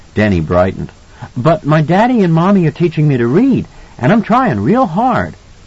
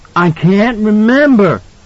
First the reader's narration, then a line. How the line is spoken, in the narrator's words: Danny cried out, agonized